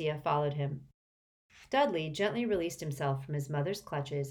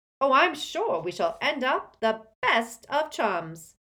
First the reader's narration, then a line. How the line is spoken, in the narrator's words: said Diggle brightly